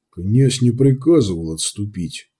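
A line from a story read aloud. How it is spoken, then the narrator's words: Quiet. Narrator (Russian): тихо произнес Витольд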